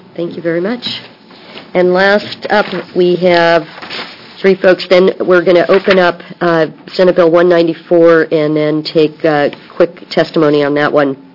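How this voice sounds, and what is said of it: Hoarse, weakening voice. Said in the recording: “I'm losing my voice”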